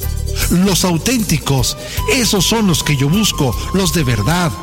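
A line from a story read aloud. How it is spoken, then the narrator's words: Man, excited exclamation. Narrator (Spanish): exclamó el hombre emocionado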